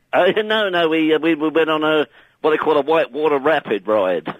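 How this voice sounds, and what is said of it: Put-on American accent. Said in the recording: “Why have you got an American accent?”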